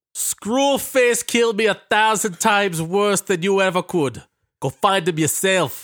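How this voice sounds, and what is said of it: New Orleans accent movie character impression. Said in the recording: “I could do the voice ... That sounded like we pulled it from the movie ... You do the New Orleans accent for Seagal pretty well ... You busted out the good accent for this guy.”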